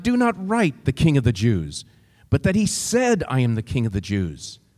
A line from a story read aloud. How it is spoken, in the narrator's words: Pilate answered